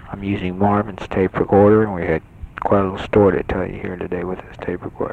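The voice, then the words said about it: Whispering. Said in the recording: “I'm whispering”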